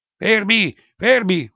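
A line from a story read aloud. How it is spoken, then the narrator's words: Yelled. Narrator (Italian): urla il biondo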